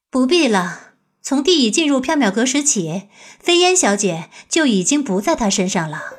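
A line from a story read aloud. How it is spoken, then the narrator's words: Faint smile. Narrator (Chinese): 白姬淡淡一笑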